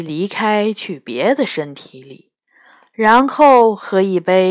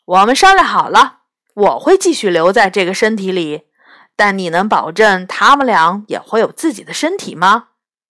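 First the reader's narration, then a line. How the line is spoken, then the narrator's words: Loud voice. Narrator (Chinese): 青兽三大声说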